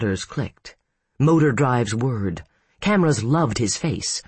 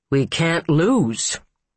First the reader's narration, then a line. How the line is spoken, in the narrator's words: Anthony Costello said, his voice clear and strong